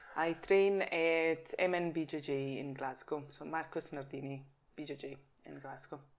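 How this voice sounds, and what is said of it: Swiss Italian accent, hints of Scottish. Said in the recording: “I'm fascinated by your accent because there's hints of Scottish in there ... I think my accent is probably Swiss Italian ... it's more of a closed accent”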